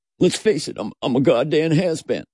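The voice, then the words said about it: Imitates another person's voice. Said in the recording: “do a Brad Pitt impression? ... That's Leo.”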